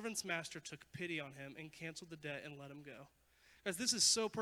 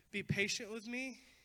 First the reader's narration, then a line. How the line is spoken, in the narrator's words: he begged